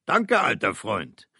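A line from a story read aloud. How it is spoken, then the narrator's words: Cheerful call. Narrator (German): rief er munter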